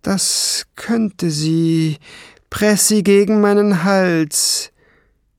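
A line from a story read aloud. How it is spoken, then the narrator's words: Hissing. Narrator (German): zischte sie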